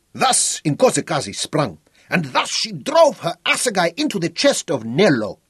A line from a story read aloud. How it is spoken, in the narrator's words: shouted, as he imitated the death stroke of his fancy